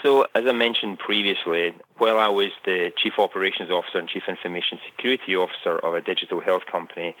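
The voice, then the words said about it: Scottish accent. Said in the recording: “you can tell from my accent, I'm originally from Scotland”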